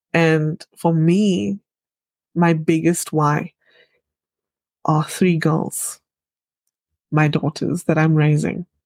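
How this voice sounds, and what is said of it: Emotional, choked-up voice. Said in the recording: “sorry, I'm getting emotional.”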